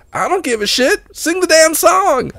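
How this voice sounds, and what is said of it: Exaggerated country accent. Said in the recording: “he's country guy. Had, you know, a bit of that country gee whiz ... he doesn't have that severe of an accent ... I'm exaggerating it for the crowd”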